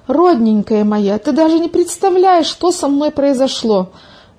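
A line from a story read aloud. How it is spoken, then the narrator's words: Exclaiming. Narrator (Russian): воскликнула Милка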